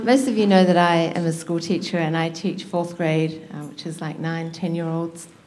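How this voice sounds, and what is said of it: Distinctive regional accent. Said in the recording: “that cool accent”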